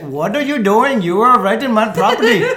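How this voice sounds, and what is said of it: Put-on Indian accent. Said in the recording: “that's the best accent he ever does... they all sound Indian”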